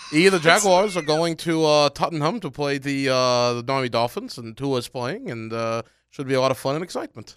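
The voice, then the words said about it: Congested put-on British accent. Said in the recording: “I have nasal congestion ... we want to hear your British accent, mate ... That was better than yours ... I don't know if the sinuses helped or hurt”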